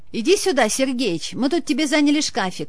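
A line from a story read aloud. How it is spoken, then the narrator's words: Old man shouting from afar. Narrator (Russian): крикнул ему откуда-то справа дед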